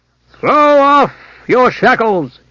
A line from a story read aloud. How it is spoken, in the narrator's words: He shouted